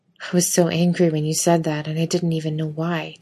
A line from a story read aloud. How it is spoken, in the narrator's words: Dean mutters